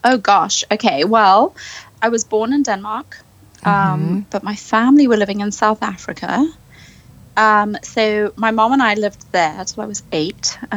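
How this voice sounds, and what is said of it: Mixed, hard-to-place accent. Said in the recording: “I love your accent ... it's so confused. ... It is so confused. ... I'm like one of those accent chameleons”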